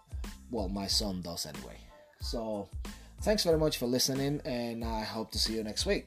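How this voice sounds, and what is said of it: Noticeable accent. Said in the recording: “My accent is my accent. ... I think it sounds really cool.”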